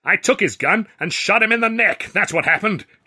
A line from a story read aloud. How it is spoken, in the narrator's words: shouted